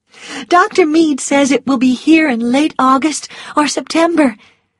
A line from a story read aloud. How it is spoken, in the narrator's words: Melanie said happily